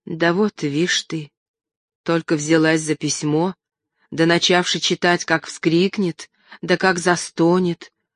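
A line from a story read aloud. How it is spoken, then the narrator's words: Worried whisper. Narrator (Russian): озабоченно зашептала Аннушка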